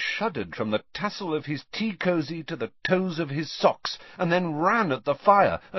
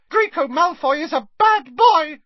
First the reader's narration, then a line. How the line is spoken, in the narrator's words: squeaked Dobby angrily